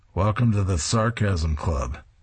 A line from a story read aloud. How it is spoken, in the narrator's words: He dryly announces